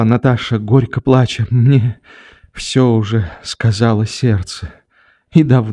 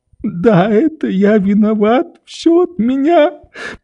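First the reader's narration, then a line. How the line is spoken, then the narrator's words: Sobbing. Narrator (Russian): повторял среди рыданий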